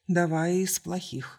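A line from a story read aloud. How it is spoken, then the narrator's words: Calm. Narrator (Russian): спокойно произнесла адмирал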